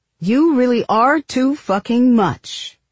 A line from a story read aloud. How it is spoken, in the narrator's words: you shouted